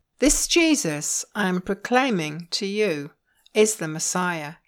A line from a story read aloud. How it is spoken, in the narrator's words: he said